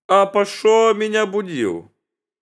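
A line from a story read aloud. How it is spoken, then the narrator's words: Angry shout. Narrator (Russian): Царь закричал к нему со гневом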